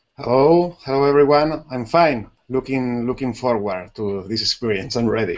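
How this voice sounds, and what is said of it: Strong Spanish accent. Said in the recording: “a really big Spanish accent.”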